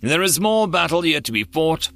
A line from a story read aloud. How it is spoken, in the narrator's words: Bakai replied, sighing